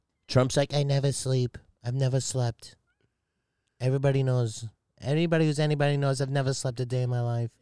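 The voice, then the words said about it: Donald Trump impression. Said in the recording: “that Trump impression”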